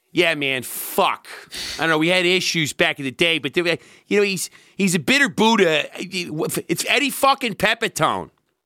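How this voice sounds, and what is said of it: Impression of Marc Maron. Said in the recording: “I can do an impression of ... So first is this great stand-up and podcaster, Mark Maron.”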